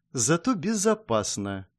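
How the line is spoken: Quiet, bitter young woman. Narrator (Russian): тихо и с какой-то горечью произнесла девушка

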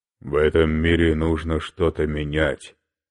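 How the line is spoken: Plain. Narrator (Russian): сказал Мандела

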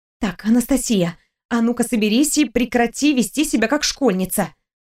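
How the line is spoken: Whispered to herself. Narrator (Russian): шептала сама себе

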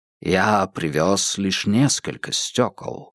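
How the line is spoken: Plain. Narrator (Russian): сказал Ян Сигерсон

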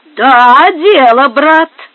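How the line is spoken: Ringing voice. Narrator (Russian): отвечал звонким голосом тот, которого звали Пабло

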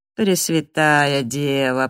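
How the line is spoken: Moaning. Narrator (Russian): простонал он

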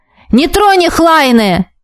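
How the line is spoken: Shouted into ear. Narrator (Russian): заорал мне в ухо маг

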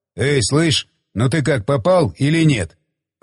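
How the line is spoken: Grumbling. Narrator (Russian): проворчал Иван

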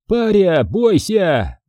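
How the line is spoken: Loud yell. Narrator (Russian): заорал бугор

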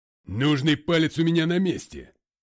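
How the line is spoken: Roaring. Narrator (Russian): взревел тот

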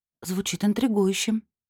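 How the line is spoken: Muttered. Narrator (Russian): пробормотала я

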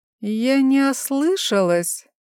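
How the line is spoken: Drawl breaking into squeal. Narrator (Russian): протянула Евгения Дмитриевна голосом, срывающимся на виск

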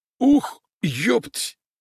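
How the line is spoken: Hoarse exhale. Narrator (Russian): выдохнул тренер с хрипом

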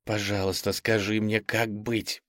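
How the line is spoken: Whisper. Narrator (Russian): прошептала она

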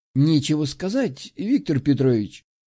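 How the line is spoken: Soft, almost sympathetic. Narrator (Russian): мягко, почти сочувственно произнес Оземский

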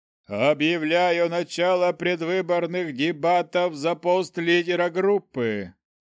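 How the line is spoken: Loud, solemn announcement. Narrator (Russian): громко и торжественно объявил он

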